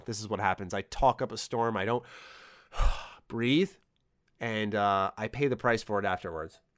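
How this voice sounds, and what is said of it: Hoarse, fading voice. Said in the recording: “my voice is disappearing now”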